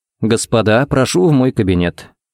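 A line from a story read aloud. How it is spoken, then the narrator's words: Calm invitation. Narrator (Russian): пригласил спокойно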